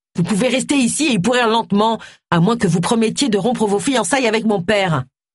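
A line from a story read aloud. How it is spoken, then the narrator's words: Shouting. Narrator (French): hurla Luc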